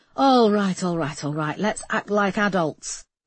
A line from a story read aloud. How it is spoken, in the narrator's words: said Marsh impatiently